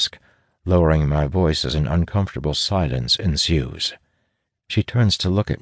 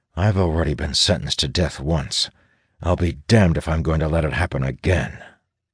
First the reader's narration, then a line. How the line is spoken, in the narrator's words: I growl